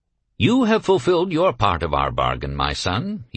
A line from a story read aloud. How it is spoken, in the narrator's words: he said to me kindly